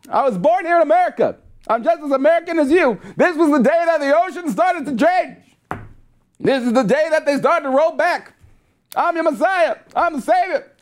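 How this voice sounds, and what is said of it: Exaggerated preacher-style political impression. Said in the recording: “my Obama impression ... I'm not really good at that impression. I'm just, like, full-out preacher Obama”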